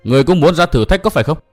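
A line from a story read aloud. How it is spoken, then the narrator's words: Loud challenging shout. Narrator (Vietnamese): Tiểu Kỳ lớn tiếng quát hỏi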